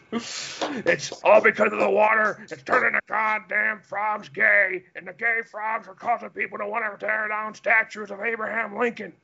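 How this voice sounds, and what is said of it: Imitates another person's voice. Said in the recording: “my Alex Jones impersonation”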